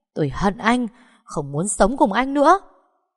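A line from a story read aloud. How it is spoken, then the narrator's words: Angry scream. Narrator (Vietnamese): Giai Ngọc tức mình hét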